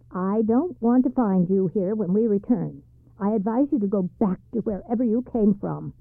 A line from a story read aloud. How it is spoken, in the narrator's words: said sharply